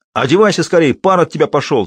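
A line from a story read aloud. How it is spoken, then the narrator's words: Shout. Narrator (Russian): закричал Скобеев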